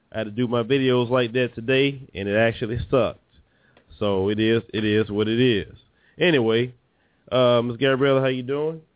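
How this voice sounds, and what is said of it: Nasal, congested voice. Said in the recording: “my voice sounds a little weird. I've been under the weather, a little cold I've been dealing with, so forgive me of my nasal type of voice.”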